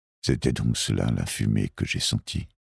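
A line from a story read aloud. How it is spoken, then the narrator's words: Murmur. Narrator (French): murmura l'homme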